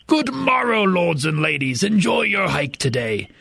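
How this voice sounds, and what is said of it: Mock Old English accent. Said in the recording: “I like to use different accents to people ... I'm terrible at accents ... my favorite one to do is Old English”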